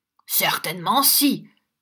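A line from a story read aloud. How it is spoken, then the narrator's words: Shout. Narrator (French): cria Newman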